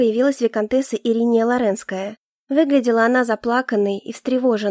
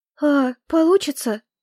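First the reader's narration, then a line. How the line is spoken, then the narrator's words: Timid question. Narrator (Russian): робко спросила Ириния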